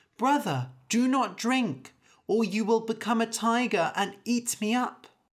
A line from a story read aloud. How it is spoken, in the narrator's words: The sister cried